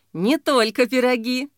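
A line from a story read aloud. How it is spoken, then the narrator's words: Sudden laughter. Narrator (Russian): Погодин вдруг засмеялся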